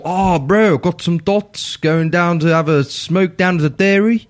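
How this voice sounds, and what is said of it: Bad put-on South African/Maori accent. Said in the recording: “It's a bad South African accent. ... It's a Maori accent.”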